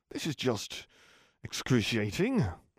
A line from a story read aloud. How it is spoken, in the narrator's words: he said to Jim through his teeth